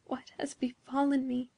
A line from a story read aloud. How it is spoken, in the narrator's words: murmured Beatrice, with a low moan out of her heart